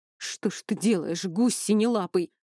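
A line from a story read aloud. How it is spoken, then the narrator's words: Hoarse wheeze. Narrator (Russian): просипел он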